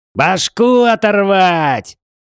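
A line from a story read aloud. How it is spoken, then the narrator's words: Hoarse yell. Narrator (Russian): чуть не охрипнув, заорал Джей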